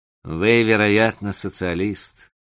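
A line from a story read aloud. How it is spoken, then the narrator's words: Cheerful, calm, joking. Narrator (Russian): сказал он весело и спокойно, с оттенком шутки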